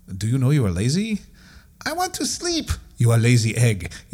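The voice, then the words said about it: Put-on stereotyped racist accent. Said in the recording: “racist accents”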